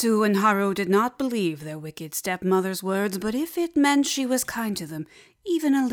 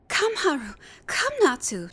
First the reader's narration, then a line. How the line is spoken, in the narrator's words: said cheerfully